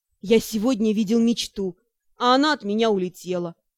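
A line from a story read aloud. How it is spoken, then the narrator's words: Proud inner growl. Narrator (Russian): Внутри гордо рыкнула Нара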